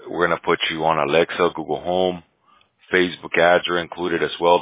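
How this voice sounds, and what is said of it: Weak, sick, fading voice. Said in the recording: “I'm a little sick here, so my voice is kind of like gone.”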